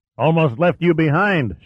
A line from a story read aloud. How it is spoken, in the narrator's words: shouted Manny